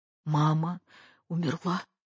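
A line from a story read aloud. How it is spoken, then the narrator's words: Choked sobbing voice. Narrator (Russian): сдавленным голосом всхлипывая говорила Катя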